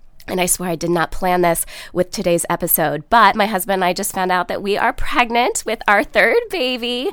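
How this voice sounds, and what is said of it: Sick, husky-sounding voice. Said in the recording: “caught some sort of bug ... I caught something too ... that's what's up with my voice. I'm not trying to sound sexy.”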